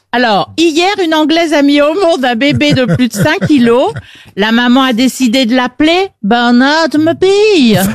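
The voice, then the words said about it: Well-done put-on accent. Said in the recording (French): “Elle le fait bien, en plus... Très bon accent.”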